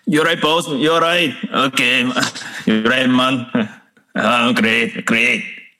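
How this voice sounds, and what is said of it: Put-on Scottish accent. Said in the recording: “can you do your Scottish accent for me?”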